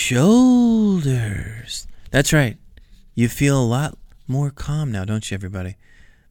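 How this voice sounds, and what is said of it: Soothing calm imitated voice. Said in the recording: “the soothing sounds of Carl's voice. I was, of course, imitating those voice sounds”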